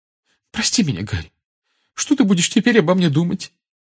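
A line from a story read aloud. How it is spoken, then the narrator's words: Trembling voice. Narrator (Russian): дрожащим голосом проговорила она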